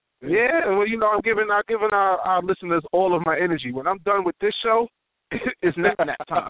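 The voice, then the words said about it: Sick-sounding radio voice. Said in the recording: “I caught a bug ... my body has been not itself. So the way that I sound, this is my radio voice ... this is definitely my radio voice.”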